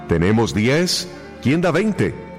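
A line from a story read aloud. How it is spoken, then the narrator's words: Auctioneer shouting. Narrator (Spanish): gritó el subastador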